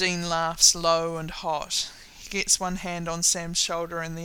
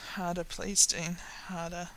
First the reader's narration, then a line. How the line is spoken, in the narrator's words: Sam murmurs